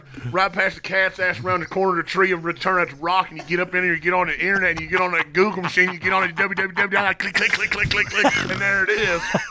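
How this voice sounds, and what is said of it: Exaggerated Southern accent. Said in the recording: “Southern accent”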